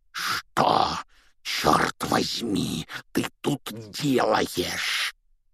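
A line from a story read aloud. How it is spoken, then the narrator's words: Hoarse, through clenched teeth. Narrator (Russian): прохрипел дядя Вернон сквозь стиснутые зубы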